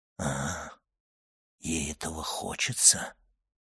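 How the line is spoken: Sinister tone. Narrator (Russian): сказал Вильфор зловещим тоном

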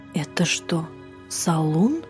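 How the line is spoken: Sudden whisper. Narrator (Russian): Сюзанна вдруг перешла на шепот

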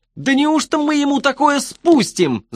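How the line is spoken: Shrieking. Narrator (Russian): завизжал он

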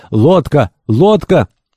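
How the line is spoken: Sailor shouting. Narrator (Russian): один из матросов закричал

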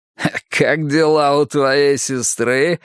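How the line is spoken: Laughing. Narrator (Russian): рассмеялся Маркус

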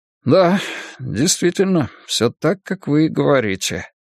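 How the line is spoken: Muttering in farewell. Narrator (Russian): неожиданно пробормотал Мэнсики на прощание

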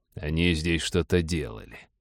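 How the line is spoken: Mumbled. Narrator (Russian): пробормотал Череп

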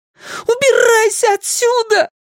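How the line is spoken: Shrieked. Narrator (Russian): взвизгнул Майк

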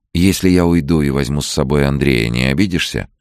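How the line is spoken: Gentle question. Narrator (Russian): мягко спросила она

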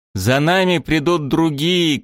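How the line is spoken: Shouting. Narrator (Russian): крикнул он

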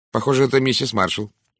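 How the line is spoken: Dry. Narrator (Russian): сухо ответила мисс Брюстер

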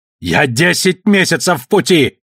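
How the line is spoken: Yelling. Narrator (Russian): орал капитан Ториадора

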